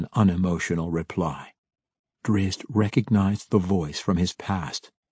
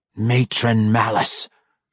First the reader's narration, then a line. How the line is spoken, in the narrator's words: she growled, her angry scowl only an inch from Drizzt's face